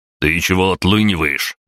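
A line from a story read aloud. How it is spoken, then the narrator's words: Barked near ear. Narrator (Russian): гаркнул Аврелий у меня над ухом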